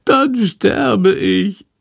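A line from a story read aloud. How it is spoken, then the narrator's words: Whining lament. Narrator (German): jammert Schandor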